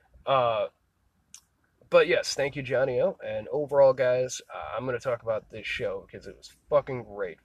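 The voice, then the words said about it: Congested, stuffed-up nasal voice. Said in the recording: “I don't know if I sound stuffed up or not, but I'm still recovering just a little bit ... my nose still has some runny moments”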